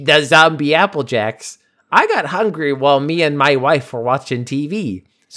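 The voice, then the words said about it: Put-on Canadian zombie accent. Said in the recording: “I should probably do this in a Canadian accent... Oh, Canadian zombie accent.”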